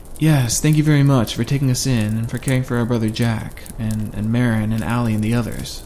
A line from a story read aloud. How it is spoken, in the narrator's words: said Drew